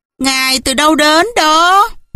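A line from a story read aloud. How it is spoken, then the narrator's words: Mocking question. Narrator (Vietnamese): với giọng giễu cợt, họ hỏi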